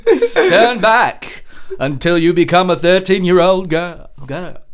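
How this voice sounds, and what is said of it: Imitates another person's voice. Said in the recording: “That's my David Bowie impersonation.”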